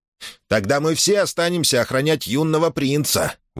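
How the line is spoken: Brash youthful exclamation. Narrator (Russian): воскликнул Ких, по молодости не всегда соблюдавший правила этикета

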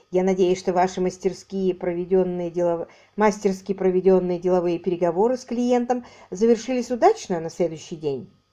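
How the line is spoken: Plain. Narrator (Russian): спросил он

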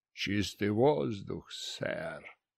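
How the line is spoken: Quiet mutter to oneself. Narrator (Russian): Негромко пробормотал я себе под нос

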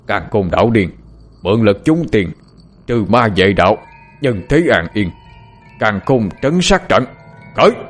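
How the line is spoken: Roaring together, alarmed. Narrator (Vietnamese): Nhận thấy nguy hiểm đến gần, ba con quỷ ấy cùng nhau ngửa mặt lên trời mà gầm thét

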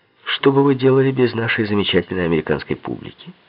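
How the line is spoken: Admiring exclamation. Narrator (Russian): С восхищением воскликнул я

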